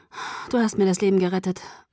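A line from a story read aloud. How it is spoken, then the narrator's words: Murmured. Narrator (German): murmelte ich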